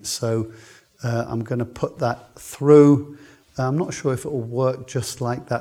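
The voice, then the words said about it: Voice in poor condition. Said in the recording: “my voice isn't good”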